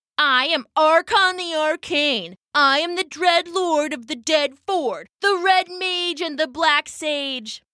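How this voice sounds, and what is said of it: Impression of Archon the Arcane. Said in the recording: “She scrunched up her face and did her best impression.”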